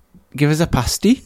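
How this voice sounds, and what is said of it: Poor attempt at Newcastle accent. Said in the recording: “I can't do a Newcastle accent. It's the like... It's my worst accent by far.”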